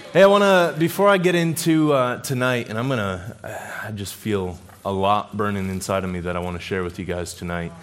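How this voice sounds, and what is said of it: Strained voice cutting in and out. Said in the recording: “I was dealing with some sickness, and this week my voice is going in and out”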